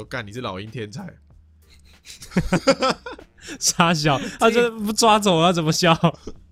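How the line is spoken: Mocking chicks. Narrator (Chinese): 其他小鸡会笑他说

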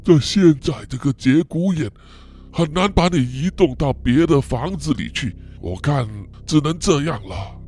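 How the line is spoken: Muttering to himself. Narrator (Chinese): 爷爷 一面喃喃自语啊的说

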